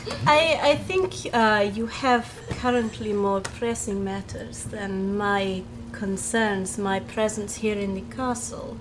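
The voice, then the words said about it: Cultured put-on character accent. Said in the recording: “Your accent's so... It's cultured. Wonderfully interesting”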